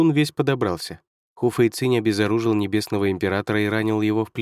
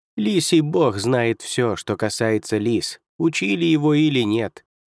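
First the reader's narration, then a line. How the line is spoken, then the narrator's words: Plain. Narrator (Russian): сказал Худзин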